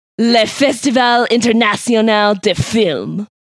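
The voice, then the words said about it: Sexy fake French accent, Pepe Le Pew. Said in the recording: “my French accent ... I had a little fake cigarette going on ... a little less like romantic ... doesn't sound like your usual French accent ... It was sexy. It was little Pepe Le Pew.”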